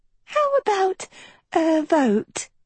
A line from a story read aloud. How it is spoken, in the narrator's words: chirped Uma